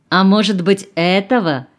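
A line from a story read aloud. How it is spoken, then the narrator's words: Mocking. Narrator (Russian): продолжала Марина, насмешливо глядя на пожилого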